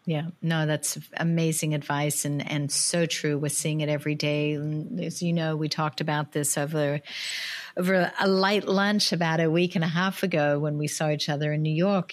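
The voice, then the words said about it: Australian accent. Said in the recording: “I totally recognize now your Australian accent ... It definitely comes out. It definitely has come out a few times.”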